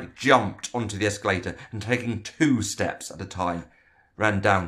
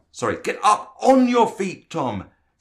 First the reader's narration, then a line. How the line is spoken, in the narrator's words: Frank shouted